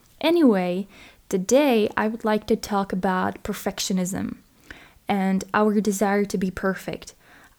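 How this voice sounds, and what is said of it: Non-native English accent. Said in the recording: “I apologize for my accent. English is not my native language”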